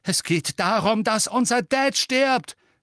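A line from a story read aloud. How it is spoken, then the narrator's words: Shouting. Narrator (German): schrie George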